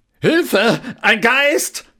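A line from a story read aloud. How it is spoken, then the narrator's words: Roaring. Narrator (German): Koks brüllte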